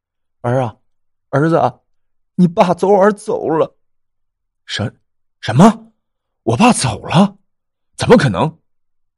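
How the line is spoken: Tearful. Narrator (Chinese): 且带有哭泣的声音

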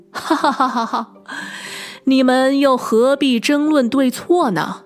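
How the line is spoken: King laughing heartily. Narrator (Chinese): 国王……哈哈大笑的说

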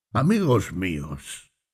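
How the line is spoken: Plain. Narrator (Spanish): dijo

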